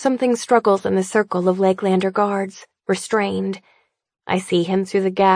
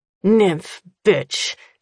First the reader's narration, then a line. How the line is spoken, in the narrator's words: he snarls